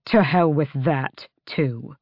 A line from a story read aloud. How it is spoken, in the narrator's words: he growled